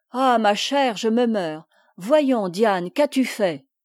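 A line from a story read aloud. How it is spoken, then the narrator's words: Exclaiming, bursting into tears. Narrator (French): s'écria la comtesse, fondant en larmes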